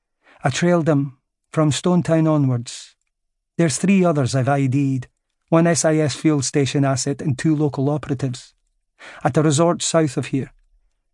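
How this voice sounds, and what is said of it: Lilting Central Scottish accent. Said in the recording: “with the same lilting Central Scotland accent”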